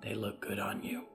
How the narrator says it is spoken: her mother whispered

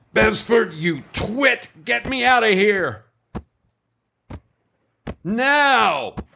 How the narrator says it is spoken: yelled out into the surrounding desolation

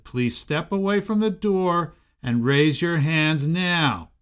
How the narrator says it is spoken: shouted

